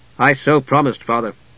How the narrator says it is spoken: Steele replied, his voice steady

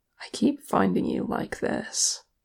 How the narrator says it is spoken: Kili said in a muted voice

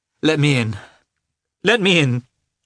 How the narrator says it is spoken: cried

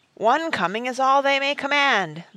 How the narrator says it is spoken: the voice roared

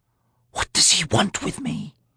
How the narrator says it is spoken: Felicen asked in a whisper

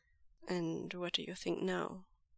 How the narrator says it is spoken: Lanjan asks him gently

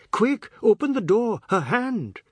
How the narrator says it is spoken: Anand laughed

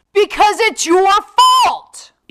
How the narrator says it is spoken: Eve shouted

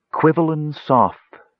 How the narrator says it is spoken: she breathed

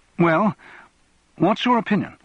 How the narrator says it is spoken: asked anxiously

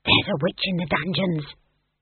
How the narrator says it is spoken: someone whispered to Granny

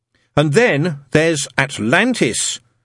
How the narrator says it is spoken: said Adam loudly

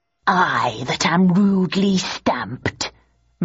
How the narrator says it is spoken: muttered Richard

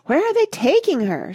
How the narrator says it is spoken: shrieked Mrs

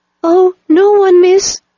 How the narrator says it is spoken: cried the maid

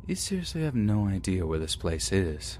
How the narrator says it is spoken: quietly uttering out

